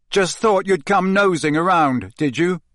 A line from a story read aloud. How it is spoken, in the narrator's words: Harry shouted